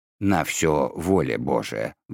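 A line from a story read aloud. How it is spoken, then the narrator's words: Sighing. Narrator (Russian): вздохнул доктор Торн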